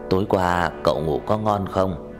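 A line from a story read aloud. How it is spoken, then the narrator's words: Smiling. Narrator (Vietnamese): Lâm mỉm cười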